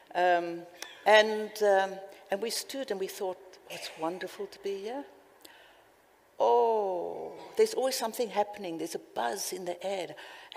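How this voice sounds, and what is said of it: South African or Australian-sounding accent. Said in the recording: “Often I get asked, are you South African, Australian, or where do you come from? So one is reminded you've got an accent all the time.”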